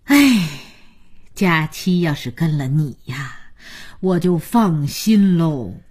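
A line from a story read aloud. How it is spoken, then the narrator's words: Old woman sighing. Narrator (Chinese): 姥姥叹口气说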